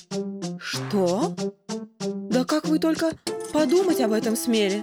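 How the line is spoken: Frightened exclamation. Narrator (Russian): Испуганно отшатнулась Ольга Марковна

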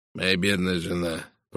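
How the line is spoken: Mutter. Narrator (Russian): пробормотал он

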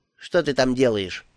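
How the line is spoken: Plain. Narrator (Russian): спросил он

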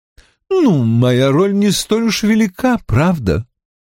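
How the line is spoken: Laughing. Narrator (Russian): рассмеялась Джудит

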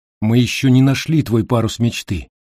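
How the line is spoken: Plain. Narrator (Russian): ответила я

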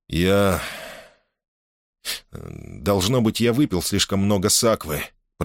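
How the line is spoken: Muttered. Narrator (Russian): пробормотал он

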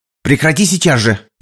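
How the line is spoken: Sharp shout, woman. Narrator (Russian): прикрикнула на него женщина

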